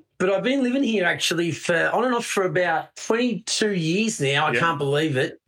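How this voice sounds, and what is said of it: Australian accent. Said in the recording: “I'm an Aussie ... my accent's getting worse ... as Aussies, we tend to shorten our words, we tend to use slang”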